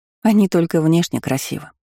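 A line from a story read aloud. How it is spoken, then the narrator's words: Snorting. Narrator (Russian): хмыкнула Несс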